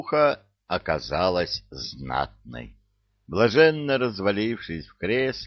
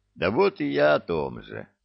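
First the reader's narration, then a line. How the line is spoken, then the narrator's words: Sighed ruefully, captain. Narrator (Russian): сокрушенно вздохнул капитан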